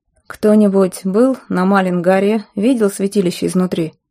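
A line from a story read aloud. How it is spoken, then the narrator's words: Ordinary voice, question. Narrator (Russian): спросил Местина вполне обычным голосом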